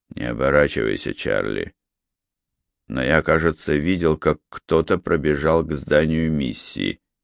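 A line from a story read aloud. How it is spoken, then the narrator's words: Quiet soldier's voice. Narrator (Russian): один из солдат тихо произнес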